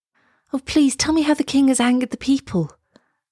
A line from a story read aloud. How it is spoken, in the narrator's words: begged Elsa